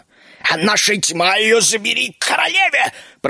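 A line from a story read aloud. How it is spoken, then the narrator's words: Hissing. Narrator (Russian): прошипел Геленхорд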